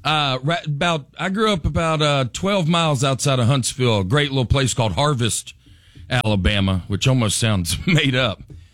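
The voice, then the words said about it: Southern US accent. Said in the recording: “My accent catches some strays in New York City ... y'all have a good afternoon ... I'm blending in a little better ... in Nashville”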